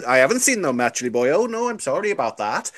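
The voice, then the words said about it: Put-on Welsh accent drifting West Country. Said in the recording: “you're sort of going a bit West Country then ... My accent's never been that great”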